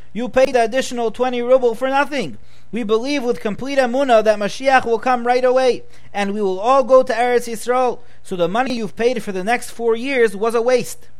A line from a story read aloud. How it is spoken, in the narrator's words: screamed the father